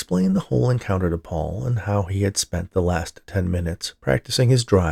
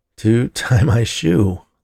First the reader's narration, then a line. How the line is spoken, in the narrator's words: laughed Scott